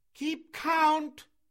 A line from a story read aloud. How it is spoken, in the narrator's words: shouted Mowgli scornfully